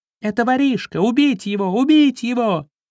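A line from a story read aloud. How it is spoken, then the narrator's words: Hateful shrieking. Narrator (Russian): С ненавистью вопили мыши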